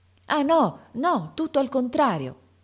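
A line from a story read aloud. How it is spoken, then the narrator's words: Heartfelt exclamation. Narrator (Italian): esclamò De Rossi con uno slancio dell'anima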